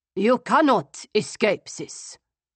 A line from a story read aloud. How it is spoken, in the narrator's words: he added sternly